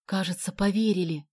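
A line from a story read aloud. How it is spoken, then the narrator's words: Whispered. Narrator (Russian): прошептал он Соне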